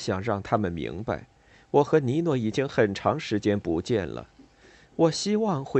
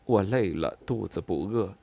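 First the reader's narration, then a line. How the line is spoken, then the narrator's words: Worried awkward mumble. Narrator (Chinese): 我有些忧虑，尴尬的嘟囔说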